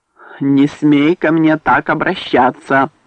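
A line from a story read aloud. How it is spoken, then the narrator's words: Grumbling. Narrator (Russian): проворчала Церолен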